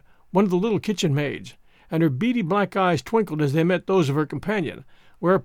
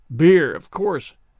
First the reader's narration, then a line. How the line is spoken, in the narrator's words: grumbled Jemima